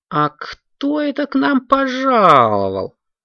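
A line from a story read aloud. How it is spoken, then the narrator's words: Mock grumbling. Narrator (Russian): притворно заворчал он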